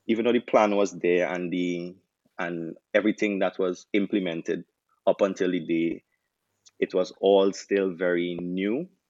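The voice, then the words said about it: Trinidadian accent. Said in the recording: “from the accent, right? We know that you're not Jamaican. So um, from Trinidad and Tobago”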